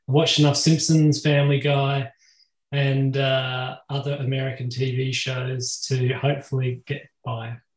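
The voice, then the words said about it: Australian accent. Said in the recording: “I'm obviously from Australia, and so I hope that you can all understand this quirky accent that I've got”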